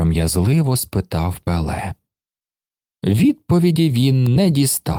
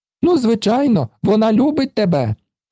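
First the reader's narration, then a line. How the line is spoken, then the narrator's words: Exclaimed. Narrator (Ukrainian): вигукнув він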